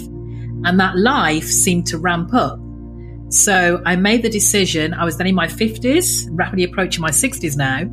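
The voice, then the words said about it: English accent. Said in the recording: “You can tell by my accent, I'm English born”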